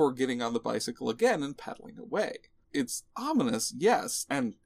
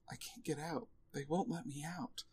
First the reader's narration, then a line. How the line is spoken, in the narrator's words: he simply mutters